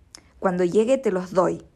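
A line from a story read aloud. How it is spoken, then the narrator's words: Rough, harsh voice. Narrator (Spanish): dijo con voz áspera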